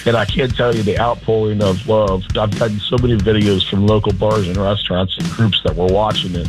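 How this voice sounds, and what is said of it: Hoarse, strained voice. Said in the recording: “Still a little hungover. I've lost my voice.”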